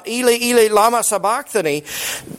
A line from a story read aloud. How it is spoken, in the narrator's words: he cried with a loud voice